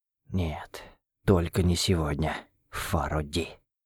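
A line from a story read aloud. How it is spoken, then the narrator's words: Whisper. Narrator (Russian): прошептал я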